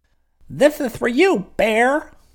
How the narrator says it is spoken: a strange voice cried out

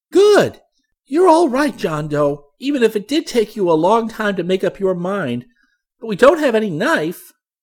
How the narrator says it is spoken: Chick was very excited by John's decision, and he exclaimed approvingly

